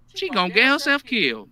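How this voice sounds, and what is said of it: Southern preacher voice. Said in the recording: “talking like a preacher ... A southern preacher.”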